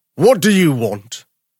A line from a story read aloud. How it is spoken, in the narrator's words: one of them roared